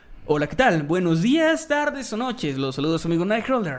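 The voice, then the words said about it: Radio announcer narrator voice. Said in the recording (Spanish): “con voz de narrador ... Y con voz de locutor.”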